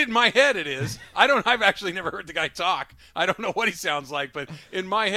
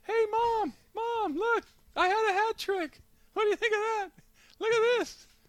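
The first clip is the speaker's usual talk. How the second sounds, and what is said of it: High-pitched imagined Messi voice. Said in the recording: “That's how his voice has to be... I just picture him having a very high”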